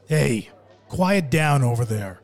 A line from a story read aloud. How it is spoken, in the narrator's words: the gangster shouted in Barboza's direction